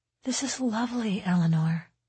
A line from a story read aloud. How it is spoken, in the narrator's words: her mother whispered